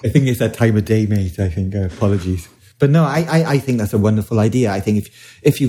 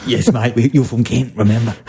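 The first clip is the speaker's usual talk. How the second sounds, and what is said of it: Put-on London East End accent. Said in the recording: “What accent is that? ... angry taxi driver ... It's like part Australian, part London. ... It's like part East End.”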